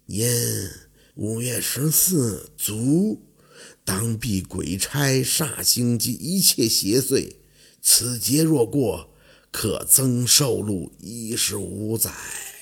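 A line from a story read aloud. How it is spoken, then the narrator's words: Dazed mumbling. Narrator (Chinese): 老二，凤年身体一个摇晃，嘴里喃喃地发出声音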